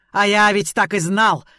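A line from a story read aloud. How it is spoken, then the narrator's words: Yelled. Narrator (Russian): завопил он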